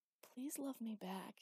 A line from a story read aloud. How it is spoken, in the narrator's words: he whispered